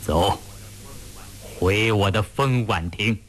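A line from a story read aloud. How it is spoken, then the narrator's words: Cold, laughing voice. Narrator (Chinese): 吴思道冰冷冷地笑着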